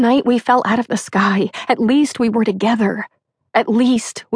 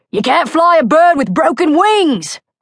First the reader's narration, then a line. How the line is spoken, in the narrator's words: Fortis shouts